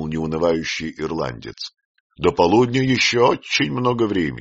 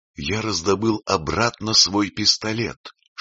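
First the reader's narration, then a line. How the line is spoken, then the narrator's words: Whisper. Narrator (Russian): шепнул Кочрэню Бельмонт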